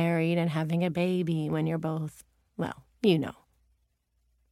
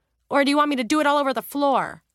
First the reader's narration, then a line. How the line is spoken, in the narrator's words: Julia snapped defensively